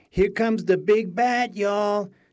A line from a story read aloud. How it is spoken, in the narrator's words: she shouted